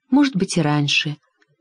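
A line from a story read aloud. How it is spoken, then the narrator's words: Whisper. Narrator (Russian): прошептала одна из дочерей воздуха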